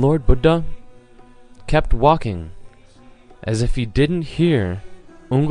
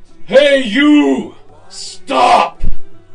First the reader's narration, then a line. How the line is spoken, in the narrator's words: Ungli Mall yelled out in a ferocious, awful voice